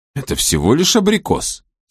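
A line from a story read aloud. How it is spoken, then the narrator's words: Ironic exclamation. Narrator (Russian): с иронией воскликнул Финолео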